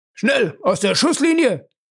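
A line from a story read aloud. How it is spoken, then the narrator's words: Shouting. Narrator (German): rief der Chefinspektor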